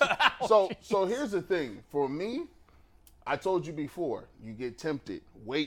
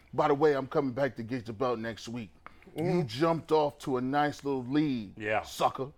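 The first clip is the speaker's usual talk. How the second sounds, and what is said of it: Imitates a wrestler's promo voice. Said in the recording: “I got the Harlem Heat voice going. Booker T and Stevie Ray in my ears right now. ... good impression.”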